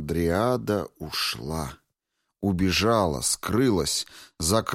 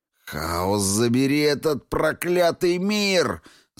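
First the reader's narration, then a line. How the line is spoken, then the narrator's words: Growling. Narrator (Russian): зарычал он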